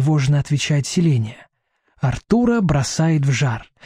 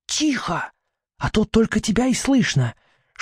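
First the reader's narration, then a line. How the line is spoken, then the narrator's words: Princess's whispered command. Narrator (Russian): шепотом приказывает принцесса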